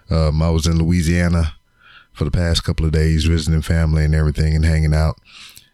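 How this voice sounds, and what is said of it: Tired, slightly hoarse voice. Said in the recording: “You can tell in my voice that I'm kind of tired, a little uh, hoarse.”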